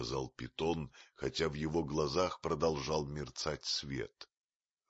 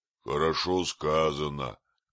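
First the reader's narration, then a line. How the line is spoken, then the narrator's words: Gruff grumble. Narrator (Russian): проворчал Балу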